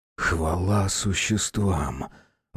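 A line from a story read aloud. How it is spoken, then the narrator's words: Relieved exhale. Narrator (Russian): выдохнул Ник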